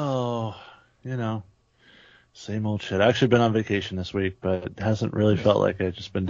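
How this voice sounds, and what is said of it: Usual voice. Nothing is said of it.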